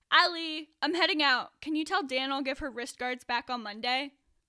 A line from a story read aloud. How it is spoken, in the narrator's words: yelling